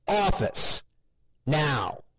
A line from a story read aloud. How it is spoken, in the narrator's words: Eric cried